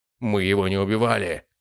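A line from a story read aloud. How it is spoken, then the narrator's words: Sharp snapping retort. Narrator (Russian): огрызнулся Рауль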